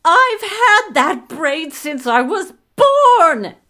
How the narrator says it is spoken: screamed

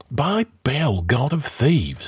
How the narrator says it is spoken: hissed Taurus

